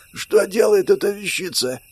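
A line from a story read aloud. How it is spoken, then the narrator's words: Hoarse, distrustful woman. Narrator (Russian): хрипло произнесла здоровячка, недоверчиво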